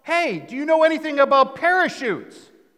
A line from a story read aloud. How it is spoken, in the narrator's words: He yells out